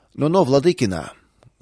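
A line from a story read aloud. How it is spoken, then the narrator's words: Rude interruption. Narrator (Russian): грубо прервал старший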